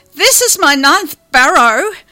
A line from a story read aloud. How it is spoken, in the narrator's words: I bellow